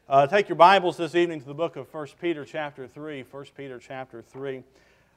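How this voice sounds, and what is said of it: Slightly rough, strained voice. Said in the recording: “Y'all pray for my voice. It's a little bit messed up this evening.”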